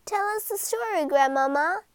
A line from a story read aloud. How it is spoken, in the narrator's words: begged the littlest mermaid